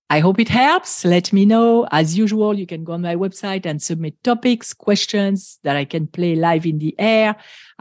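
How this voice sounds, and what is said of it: Strong foreign accent. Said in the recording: “my accent ... it's so strong ... I love my accent”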